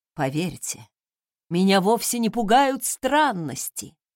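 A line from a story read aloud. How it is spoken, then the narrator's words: Muffled, hurt. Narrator (Russian): глухо проговорил Сойер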